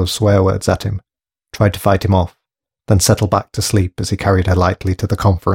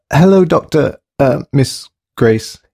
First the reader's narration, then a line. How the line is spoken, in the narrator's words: he stammered